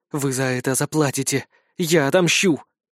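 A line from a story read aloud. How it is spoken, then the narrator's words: Hateful whisper. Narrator (Russian): мама с ненавистью снова прошептала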